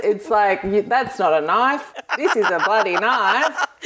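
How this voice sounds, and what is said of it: Exaggerated broad Australian accent. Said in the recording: “my accent gets stronger ... the Australian accent from Western Australia is not as strong ... I start talking like this ... it's the man from Snowy River”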